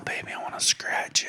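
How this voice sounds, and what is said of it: Exaggerated whisper. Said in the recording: “My whisper is on 1,000 right now”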